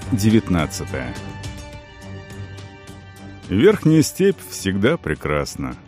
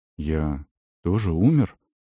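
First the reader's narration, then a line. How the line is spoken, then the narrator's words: Asked uncertainly by son. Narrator (Russian): неуверенно спросил ее сын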